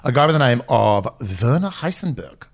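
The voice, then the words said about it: Put-on German accent. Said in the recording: “Like you said that with a German accent.”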